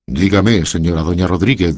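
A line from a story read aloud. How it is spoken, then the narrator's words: Plain. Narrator (Spanish): dijo don Quijote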